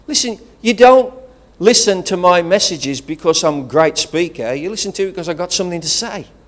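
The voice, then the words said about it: Regional English accent. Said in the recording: “I've got the worst accent, English accent, in the world ... It's the worst English accent.”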